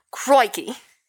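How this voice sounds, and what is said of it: Steve Irwin impression. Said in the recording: “I had a pretty good impression of him... Steve Irwin”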